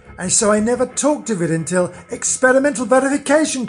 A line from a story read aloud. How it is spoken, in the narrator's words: cried I